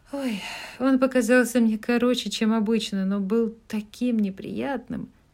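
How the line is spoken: Sighed. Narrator (Russian): вздохнула Мэг

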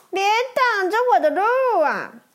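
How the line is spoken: Laughing. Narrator (Chinese): 麦昆笑着回答

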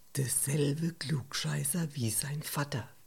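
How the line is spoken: Muttered. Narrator (German): Heiner murmelte

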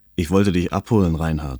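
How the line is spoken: Plain. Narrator (German): sagte

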